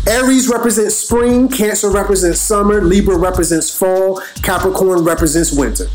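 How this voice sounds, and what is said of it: Noticeable accent. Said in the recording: “I don't know if my accent, made it hard for you to understand it.”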